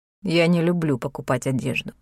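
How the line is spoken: Mumbled. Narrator (Russian): пробормотал Итан

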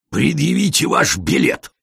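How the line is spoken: Angry bark. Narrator (Russian): сердито рявкнул он

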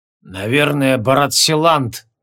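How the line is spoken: Sullen, through gritted teeth. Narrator (Russian): угрюмо процедил Лекур ординарцу

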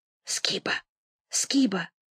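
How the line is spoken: Whisper from behind. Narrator (Russian): сзади послышался шепот

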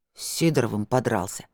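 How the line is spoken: Wary grumble. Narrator (Russian): настороженно буркнул Ричард

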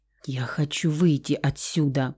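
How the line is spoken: Tearful whisper. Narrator (Russian): прошептала Лусия, отнимая ладони от заплаканного лица

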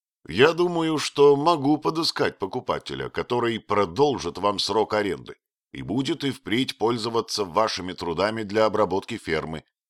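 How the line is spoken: Plain. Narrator (Russian): сказал он

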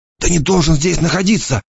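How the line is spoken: Female hissing. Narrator (Russian): зашипела она

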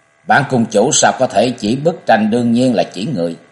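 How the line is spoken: Cold stern voice. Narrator (Vietnamese): Cực Lạc tiên tử chợt trầm sắc diện, giọng lạnh lùng nói

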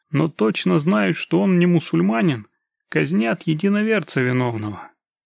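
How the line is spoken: Calm. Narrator (Russian): все так же спокойно проговорил Игорь

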